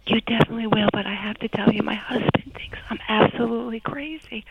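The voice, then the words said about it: Whispered voice, New York accent. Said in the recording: “from New Jersey with the New York accent. But hopefully in my whisper you won't hear it. ... I hear it. ... You can't hide it with a whisper. ... I'm whispering. ... you were, but I still hear your accent.”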